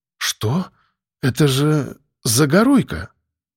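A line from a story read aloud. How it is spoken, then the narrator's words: Surprised breathless gasp. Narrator (Russian): с удивлением выдохнула Вера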